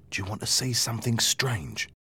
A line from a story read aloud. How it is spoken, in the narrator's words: Mike whispered in my ear